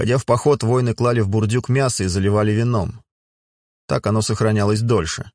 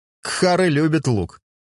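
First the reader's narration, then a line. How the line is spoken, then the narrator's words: Laughing. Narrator (Russian): засмеялся Дюлька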